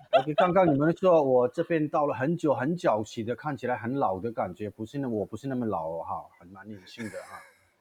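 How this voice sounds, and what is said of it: Mandarin with slight Taiwanese accent. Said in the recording (Chinese): “台湾的一点点有口音吧 ... 看起来台湾的一点点口音哈，是台湾 ... 对台湾很亲切的口音哎，你不讲会以为大概你是香港人之类的”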